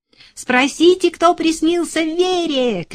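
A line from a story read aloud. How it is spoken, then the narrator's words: Shouted. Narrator (Russian): крикнула Лёля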